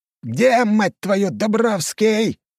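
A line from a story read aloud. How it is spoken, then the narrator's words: Throat-tearing shout. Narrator (Russian): Срывая глотку, выкрикнул герцог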